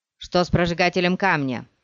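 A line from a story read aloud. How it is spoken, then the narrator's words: Shouted. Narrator (Russian): закричал кто-то из вновь прибывших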